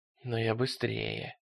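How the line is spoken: Muttering. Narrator (Russian): бормотал он

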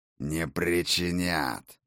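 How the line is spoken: Growling giant. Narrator (Russian): рыкнул серый исполин

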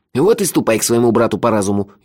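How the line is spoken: Venomous snort. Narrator (Russian): ядовито хмыкнул Мелифара

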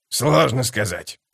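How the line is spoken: Muttered. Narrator (Russian): пробормотал скрипач

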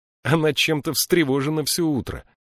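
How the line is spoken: Laughing. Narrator (Russian): рассмеялся Бинабик

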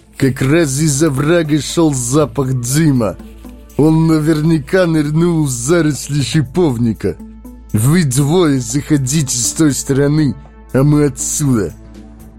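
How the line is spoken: Loud, close by. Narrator (Russian): кто-то громко сказал

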